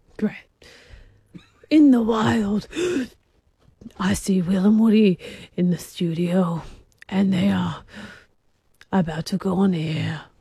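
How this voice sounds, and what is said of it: Breathy David Attenborough impression. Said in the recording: “your best David Attenborough impersonation ... He did breaths ... Quite breathy.”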